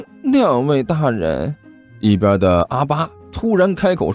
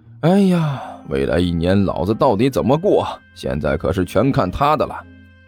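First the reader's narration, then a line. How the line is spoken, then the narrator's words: Long heavy sigh. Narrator (Chinese): 甘秋长叹一声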